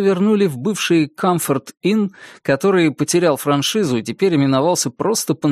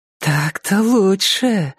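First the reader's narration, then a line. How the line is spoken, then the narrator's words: Sighed. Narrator (Russian): вздохнула Мелисса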